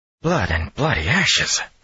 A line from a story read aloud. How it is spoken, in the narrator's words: he muttered in shock